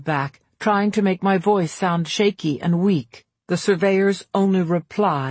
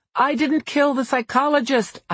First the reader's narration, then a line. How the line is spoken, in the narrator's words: shouted